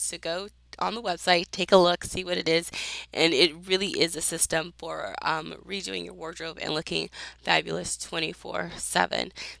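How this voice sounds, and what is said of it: Hoarse voice. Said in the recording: “thank you for putting up with my voice. I'm a little hoarse in case you couldn't tell.”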